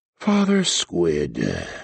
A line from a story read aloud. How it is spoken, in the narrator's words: the archbishop sighed